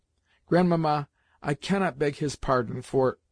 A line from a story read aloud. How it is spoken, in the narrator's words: stopped suddenly tears that were choking me